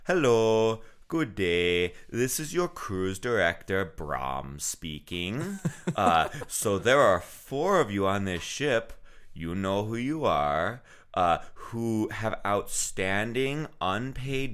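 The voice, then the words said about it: Imitates another person's accent. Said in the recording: “I can't do his accent right, but I'm gonna try here anyway.”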